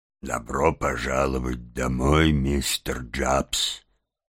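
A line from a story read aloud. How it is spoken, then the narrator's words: Solemn. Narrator (Russian): торжественно произнес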